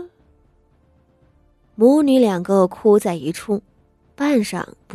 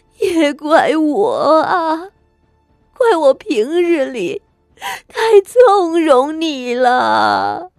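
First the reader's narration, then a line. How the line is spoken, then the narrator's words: Crying, scolding. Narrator (Chinese): 谢氏 一臂哭着骂道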